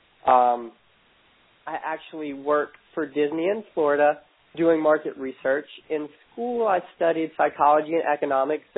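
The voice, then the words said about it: Voice sounding like a cold. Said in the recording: “Not sure if you can hear my accent through my cold right now”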